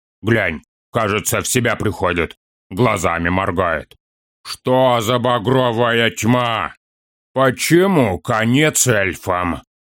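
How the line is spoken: Stern question. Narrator (Russian): Строго спросил у орка Хорнбари

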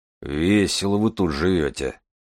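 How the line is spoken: Grumbling. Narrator (Russian): пробурчал Железовский

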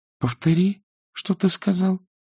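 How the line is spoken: Quiet request. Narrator (Russian): тихонько попросила Изабель

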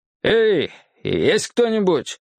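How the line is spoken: Loud bark. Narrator (Russian): кто-то гаркнул

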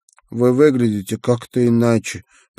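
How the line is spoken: Mutter. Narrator (Russian): пробормотал он

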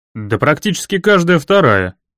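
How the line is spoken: Brisk cheerful reply. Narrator (Russian): бодро ответил я

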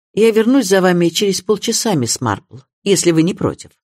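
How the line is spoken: Curt tone. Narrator (Russian): Суперинтендант Харпер отрывистым тоном произнес

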